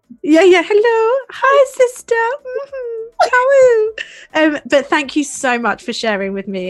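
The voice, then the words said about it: Put-on polite phone voice. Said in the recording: “This sounds like my mum's phone voice.”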